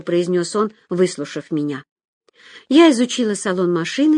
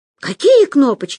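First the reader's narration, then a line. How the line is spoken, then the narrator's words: Exclaimed. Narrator (Russian): воскликнула Люся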